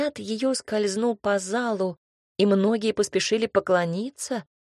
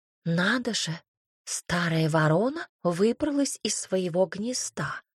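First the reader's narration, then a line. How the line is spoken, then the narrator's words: Whisper. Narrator (Russian): прошептала княгиня Платонова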